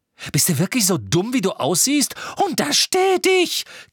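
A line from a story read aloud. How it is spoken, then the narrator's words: Squealing. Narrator (German): quiekte Tante Petunia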